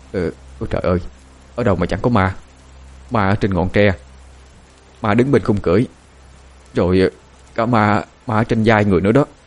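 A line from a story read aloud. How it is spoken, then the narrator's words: Startled whisper. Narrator (Vietnamese): Giản lúc nào cũng giật mình, rồi thì thào đáp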